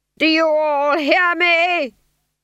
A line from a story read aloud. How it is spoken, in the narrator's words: He screamed